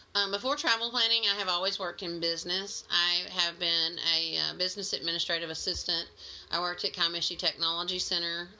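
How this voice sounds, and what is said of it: Slight Mississippi accent. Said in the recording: “I'm a transplant from Mississippi, so I do still have a little bit of an accent, I'm told... Everyone's shaking their head.”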